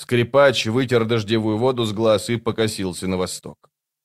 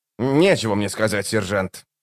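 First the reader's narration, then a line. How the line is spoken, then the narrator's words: Sullen grumble. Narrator (Russian): угрюмо проворчал он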